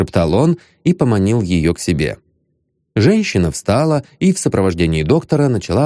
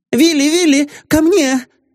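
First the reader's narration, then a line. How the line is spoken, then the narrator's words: Joyful lady shouting. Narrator (Russian): закричала обрадованная дама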